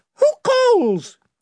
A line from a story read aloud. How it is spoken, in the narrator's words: it piped